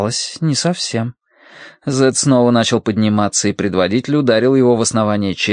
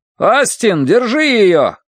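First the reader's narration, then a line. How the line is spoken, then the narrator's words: Distant shout. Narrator (Russian): крикнули ей вслед, но уже далеко за спиной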